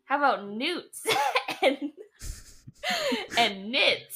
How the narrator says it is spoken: Lightning laughs at you

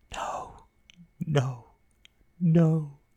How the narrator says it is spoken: she cried in a formless voice

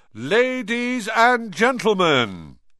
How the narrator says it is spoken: he said loudly

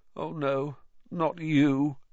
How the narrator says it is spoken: he moaned

